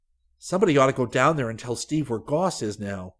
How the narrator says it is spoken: Rick said urgently

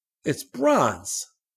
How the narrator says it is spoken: he exclaimed

